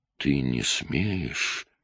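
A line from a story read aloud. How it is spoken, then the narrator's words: Barely audible. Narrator (Russian): еле слышно произнесла она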